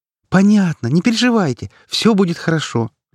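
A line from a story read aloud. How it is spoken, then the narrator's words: Cheerful. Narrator (Russian): радостно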